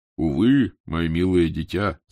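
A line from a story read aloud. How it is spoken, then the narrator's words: Deep bass voice. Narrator (Russian): сказала она басом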